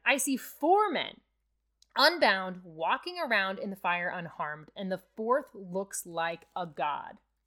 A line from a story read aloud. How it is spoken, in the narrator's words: Nebuchadnezzar shouted